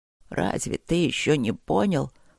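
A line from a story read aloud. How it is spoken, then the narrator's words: Hoarse wheeze, emperor. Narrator (Russian): просипел император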